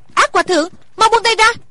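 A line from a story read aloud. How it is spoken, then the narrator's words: Frightened cry. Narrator (Vietnamese): Thủy Sinh cả sợ kêu lên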